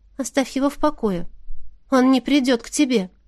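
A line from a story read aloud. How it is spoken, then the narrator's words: Quiet, slightly trembling female voice. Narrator (Russian): произнесла девушка тихим и немного дрожащим голосом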